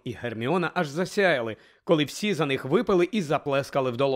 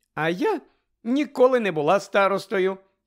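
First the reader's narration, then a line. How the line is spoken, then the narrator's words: Cheerful telling. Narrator (Ukrainian): Весело розповідала Тонкс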